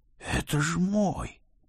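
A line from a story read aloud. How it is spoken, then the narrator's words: Hoarse, sunken mutter. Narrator (Russian): осевшим голосом пробормотал Флеврити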